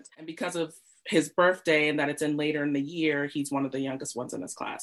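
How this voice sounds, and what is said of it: American accent. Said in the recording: “the US, where I grew up, if you haven't told from my accent”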